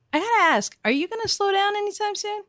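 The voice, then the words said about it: Motherly, parental-sounding voice. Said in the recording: “you sound like my mother there ... I channeled it”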